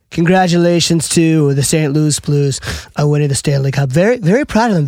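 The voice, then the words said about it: Imitates another person's voice. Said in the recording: “can we get a Pimo Trump take”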